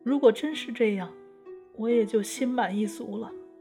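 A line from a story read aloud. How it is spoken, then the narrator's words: Speaking after crying. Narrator (Chinese): 更娘止住哭泣说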